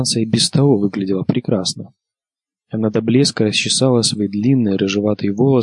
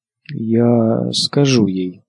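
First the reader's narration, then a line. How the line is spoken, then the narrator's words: Uncertain. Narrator (Russian): проговорила Санса неуверенно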